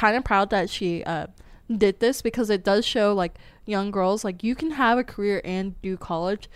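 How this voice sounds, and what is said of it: Usual voice. Nothing is said of it.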